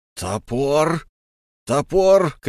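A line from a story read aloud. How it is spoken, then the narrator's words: Lama shouting. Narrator (Russian): кричал лама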